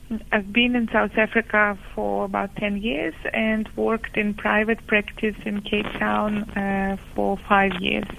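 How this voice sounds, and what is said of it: Ukrainian accent. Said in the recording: “I come from Ukraine, as some of you might be curious about my accent.”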